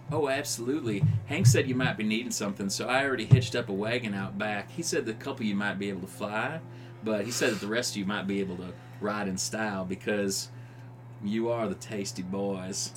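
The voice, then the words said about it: Southern belle accent, woman's voice. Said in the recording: “a southern affectation ... Southern Belle ... I like her accent. It's nice.”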